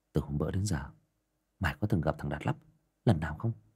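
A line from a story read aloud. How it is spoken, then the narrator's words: Whisper. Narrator (Vietnamese): Thằng Nam thủ thỉ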